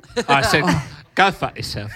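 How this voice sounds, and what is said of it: Imitates another person's voice. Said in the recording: “your Michael Caine accent”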